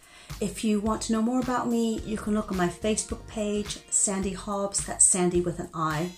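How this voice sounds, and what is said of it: Muddled transatlantic American-British accent. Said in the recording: “my accent is a bit muddled. I like to say that my accent has left the coast of the US, but hasn't quite arrived in the UK yet. So it's my transatlantic accent.”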